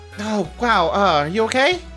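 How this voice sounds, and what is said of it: Teen girl character voice. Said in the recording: “My voice is identical to Natalie's because ... only got one teen girl voice.”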